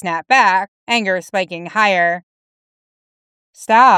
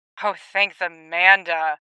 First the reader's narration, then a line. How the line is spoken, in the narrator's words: he muttered